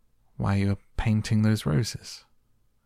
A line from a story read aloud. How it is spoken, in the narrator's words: said Alice, a little timidly